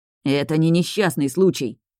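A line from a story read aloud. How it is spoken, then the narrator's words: Growled. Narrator (Russian): прорычал он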